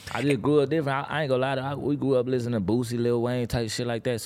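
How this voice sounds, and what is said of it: Slight regional accent. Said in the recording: “he got a little accent”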